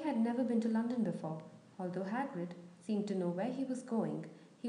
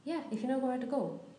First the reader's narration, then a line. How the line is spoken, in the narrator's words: said Hagrid